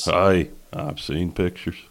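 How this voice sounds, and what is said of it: Rural hick voice impression. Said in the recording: “impersonation, you have to sound like a backdoor hick”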